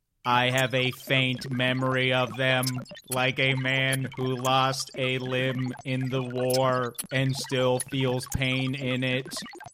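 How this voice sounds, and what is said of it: Flat monotone robot voice. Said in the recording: “Please do not mistake my monotone for rage. ... As a robot”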